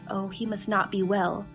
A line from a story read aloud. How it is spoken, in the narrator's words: You whisper